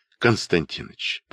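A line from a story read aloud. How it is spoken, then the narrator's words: Soft request. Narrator (Russian): попросил мягко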